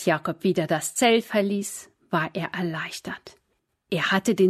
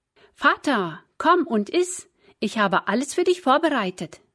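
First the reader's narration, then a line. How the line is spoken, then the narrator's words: Calling out. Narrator (German): rief Esau ihm zu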